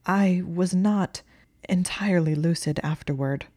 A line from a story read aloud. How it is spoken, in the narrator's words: Hermione stammered